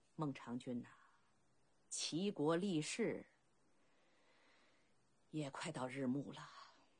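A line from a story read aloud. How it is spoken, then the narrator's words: Sigh after long silence. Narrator (Chinese): 默然良久，鲁仲连一声叹息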